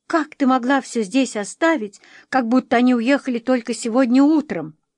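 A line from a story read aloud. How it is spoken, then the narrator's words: Hysterical sobbing, accusing. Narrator (Russian): Лиз трясла головой и истерично всхлипывала, обвиняюще глядя на Эдвину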